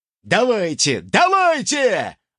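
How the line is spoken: Excited shout. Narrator (Russian): азартно выкрикнул ультиматор

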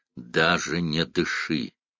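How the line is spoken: Hoarse whisper. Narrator (Russian): Он хрипло прошептал

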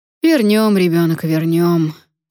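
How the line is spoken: Sighing. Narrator (Russian): вздохнул дядя Лёва

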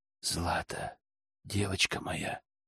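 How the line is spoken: Whispered. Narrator (Russian): прошептал я

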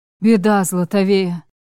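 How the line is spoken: Hoarse rasp. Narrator (Russian): Прохрипел Маривек

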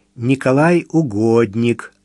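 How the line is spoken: Plain. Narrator (Russian): ответил просвещенный Митя

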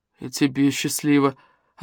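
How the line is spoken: Puzzled mutter. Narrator (Russian): озадаченно пробормотал Смешарин

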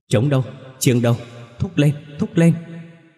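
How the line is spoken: Stammering, mumbling. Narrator (Vietnamese): Gia Phước ú ớ

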